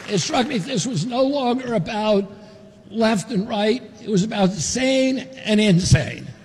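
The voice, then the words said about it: Southern accent. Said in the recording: “he's got a southern accent all of a sudden.”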